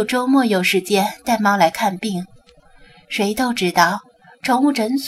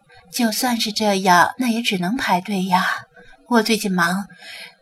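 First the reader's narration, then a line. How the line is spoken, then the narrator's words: Worried sigh. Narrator (Chinese): 刘文英发愁的叹了口气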